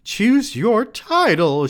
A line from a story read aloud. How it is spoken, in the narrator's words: cried